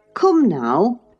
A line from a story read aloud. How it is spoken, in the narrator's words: I exclaimed